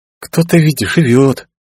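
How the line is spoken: Envious sigh. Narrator (Russian): С ноткой зависти вздохнула Фешби

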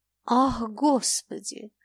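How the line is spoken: Sigh. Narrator (Russian): вздохнул Фома

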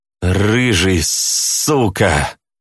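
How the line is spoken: Hateful hiss. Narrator (Russian): прошипел Заяц с ненавистью

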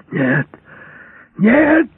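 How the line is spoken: Yelling. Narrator (Russian): орал Подовский

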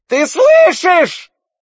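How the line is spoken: Shrieked. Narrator (Russian): провизжала Фиона

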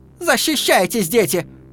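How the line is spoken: Shout. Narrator (Russian): крикнула она

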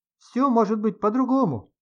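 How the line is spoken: Shouting while moving. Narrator (Russian): на ходу кричал Сережа

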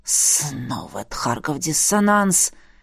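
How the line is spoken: Angry muffled hiss. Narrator (Russian): Зло прошипел Эдмунд, уткнувшись лбом в мое плечо

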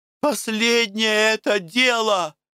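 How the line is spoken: Shouting. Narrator (Russian): кричала Наташка

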